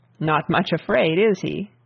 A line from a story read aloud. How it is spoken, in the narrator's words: asked the Earl dryly